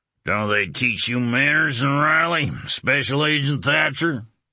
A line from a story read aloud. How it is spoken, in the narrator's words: Jolly slurred